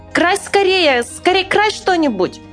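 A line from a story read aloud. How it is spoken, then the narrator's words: Delighted shout. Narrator (Russian): Мишка обрадовался и как закричит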